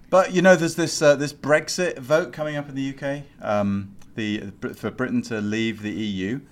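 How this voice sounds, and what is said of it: British accent. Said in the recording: “Listen to that voice ... he's got a British accent”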